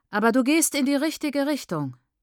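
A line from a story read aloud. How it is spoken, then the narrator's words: Loud, talking over others. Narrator (German): lenkt Praise ziemlich laut ein, um sie zu übertönen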